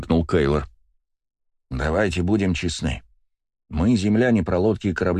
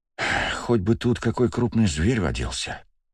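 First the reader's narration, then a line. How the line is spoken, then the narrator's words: Sighing. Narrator (Russian): вздохнул Вальдемар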